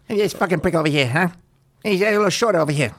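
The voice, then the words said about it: Impression of Eddie Pepitone, Joe Pesci. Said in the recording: “Rick Overton doing channeling Eddie Pepitone and I think a little bit of Joe Pesci in there”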